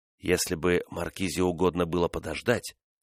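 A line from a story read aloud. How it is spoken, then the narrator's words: Soothing tone. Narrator (Russian): проговорил он успокаивающим тоном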